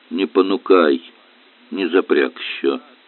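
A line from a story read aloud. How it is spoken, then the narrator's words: Muffled grumbling. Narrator (Russian): проворчал из-под машины Попков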